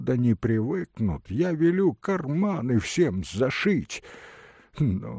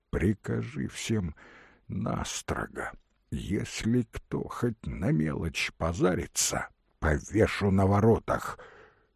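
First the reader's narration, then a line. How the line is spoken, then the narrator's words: Quiet. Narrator (Russian): Петр тихо сказал Алексашке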